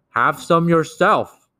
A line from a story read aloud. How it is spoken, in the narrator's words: cried the BFG